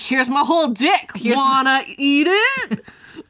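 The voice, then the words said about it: Impression of Mulder. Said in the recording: “that's my Mulder impression.”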